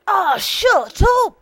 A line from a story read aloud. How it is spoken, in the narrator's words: said Leo, suddenly screaming